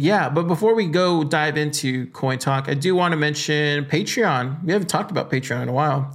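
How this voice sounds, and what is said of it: Usual voice. Nothing is said of it.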